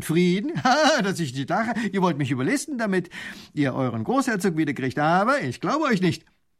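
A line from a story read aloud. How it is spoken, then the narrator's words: Lieutenant laughing. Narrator (German): Ha, lacht der Leutnant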